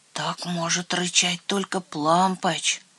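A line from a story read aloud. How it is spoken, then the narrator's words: Frightened whisper. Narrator (Russian): Трусишка Лойбнер испуганно прошептал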